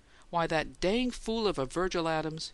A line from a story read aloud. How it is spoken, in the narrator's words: he exclaimed